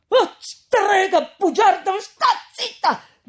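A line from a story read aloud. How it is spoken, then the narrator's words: Shouted. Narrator (Italian): gridò Renzo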